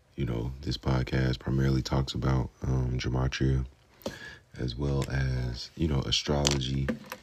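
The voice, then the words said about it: Whispering. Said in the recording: “whispering right now because my kid is asleep”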